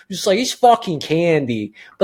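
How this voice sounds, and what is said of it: Put-on Baltimore accent. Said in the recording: “I don't know why I default to Baltimore accent when I do those kind of people.”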